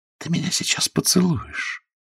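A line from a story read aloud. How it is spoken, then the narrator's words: Whispered. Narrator (Russian): сказала Мила шепотом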